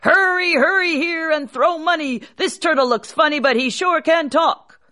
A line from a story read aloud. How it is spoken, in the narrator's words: called out